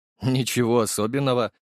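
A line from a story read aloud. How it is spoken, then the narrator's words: Snort. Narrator (Russian): хмыкнул я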